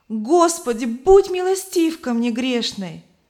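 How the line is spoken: Loud exclamation in sleep. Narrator (Russian): Она громко воскликнула во сне

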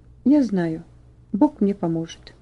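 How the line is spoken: Quiet firm voice. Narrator (Russian): После длинной паузы Ваня сказал тихо, но твердо

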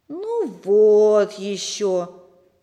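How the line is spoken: Disappointed drawl. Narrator (Russian): разочарованно протянул Сережа

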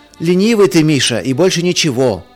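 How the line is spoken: Shouted from another room. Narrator (Russian): из ванной крикнул Марк

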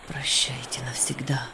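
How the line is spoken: Bitter whisper to himself. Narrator (Russian): с горечью прошептал про себя Виктор

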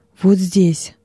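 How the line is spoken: Plain, young man. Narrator (Russian): сказал молодой трибунь

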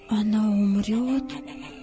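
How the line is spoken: Whispered question. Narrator (Russian): шепотом спросил Давид

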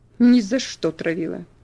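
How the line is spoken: Sharp. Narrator (Russian): резко ответил он

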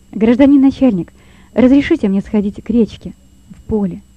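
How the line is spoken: Plain. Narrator (Russian): спросил Лёва

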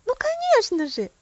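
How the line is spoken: Excited exclamation. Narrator (Russian): воскликнула Софи

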